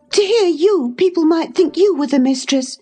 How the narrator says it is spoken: she cried

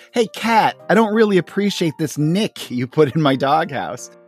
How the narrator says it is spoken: Snoopy yells to the cat next door

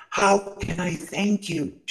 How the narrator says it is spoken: she cried

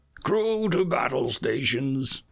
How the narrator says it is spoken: the captain called out, his voice booming in the bridge

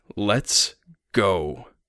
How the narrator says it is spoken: he growled

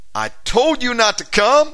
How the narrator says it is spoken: screamed out the demon inside her, said

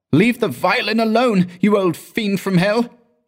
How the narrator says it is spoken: cried in hoarse and trembling tones

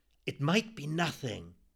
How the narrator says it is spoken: whispered

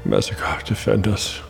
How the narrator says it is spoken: he breathed

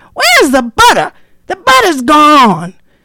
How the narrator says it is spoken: Brother Rabbit was the first one in the kitchen, and he hollered

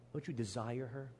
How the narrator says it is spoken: He whispers into Judas's ears

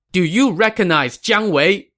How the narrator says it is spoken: the young man shouted

